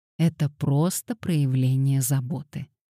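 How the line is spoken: Gentle remark. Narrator (Russian): мягко заметила Кассандра

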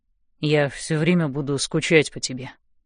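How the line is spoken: Quiet. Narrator (Russian): тихо говорит Ной

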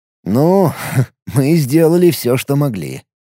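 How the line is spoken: Amused snort. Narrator (Russian): хмыкнул Алекс

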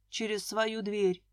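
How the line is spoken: Grumble. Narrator (Russian): пробурчал Николай Леонидович

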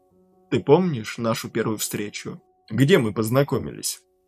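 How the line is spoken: Plain. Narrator (Russian): спросил он

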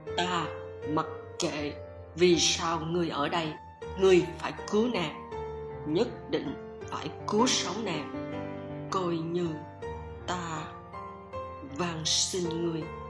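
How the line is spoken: Harsh, word by word. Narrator (Vietnamese): Y gằn giọng nói từng tiếng một

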